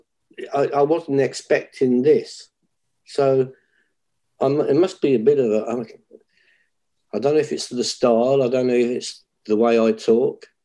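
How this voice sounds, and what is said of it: British accent. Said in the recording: “They love my accent ... you're from the UK. You've got this cool accent.”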